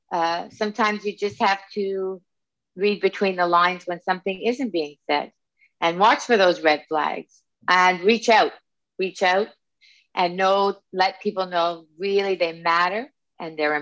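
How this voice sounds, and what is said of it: Subtle Canadian accent. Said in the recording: “that Canadian accent ... she doesn't sound like she's from Canada. And then you said about and out.”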